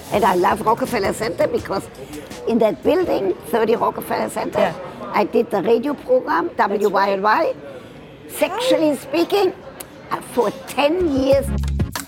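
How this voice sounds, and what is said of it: Speaks with a noticeable foreign accent. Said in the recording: “You can hear my accent.”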